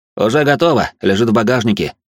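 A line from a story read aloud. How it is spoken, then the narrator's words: Snorting chuckle. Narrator (Russian): хмыкнул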